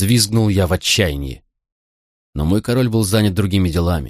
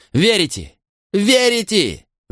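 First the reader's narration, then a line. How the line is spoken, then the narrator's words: Shouting. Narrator (Russian): закричал я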